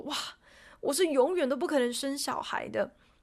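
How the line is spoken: Exaggerated lament. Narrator (Chinese): Jerry 夸张的怨叹说

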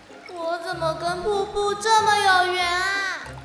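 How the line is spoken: Distant shout. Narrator (Chinese): 一声呼喊从瀑布下方传来

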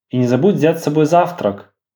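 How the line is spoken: Plain, mother. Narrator (Russian): сказала мама

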